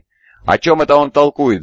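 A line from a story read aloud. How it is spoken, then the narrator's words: Shout. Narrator (Russian): закричал он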